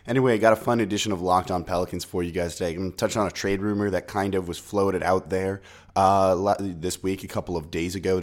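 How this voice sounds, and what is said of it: Sick, husky voice. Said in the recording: “Still a little bit sick, as you can probably hear it in my voice. I'm not trying to seduce you. It's just how it sounds.”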